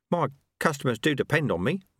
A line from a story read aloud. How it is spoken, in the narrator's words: Ronnie Soak mumbled